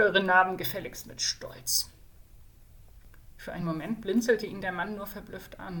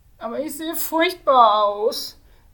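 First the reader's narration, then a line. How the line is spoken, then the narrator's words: Magician whining. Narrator (German): jammerte der Magier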